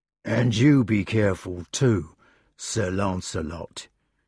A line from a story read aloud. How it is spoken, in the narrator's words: said quietly